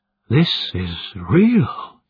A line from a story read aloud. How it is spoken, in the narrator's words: he breathed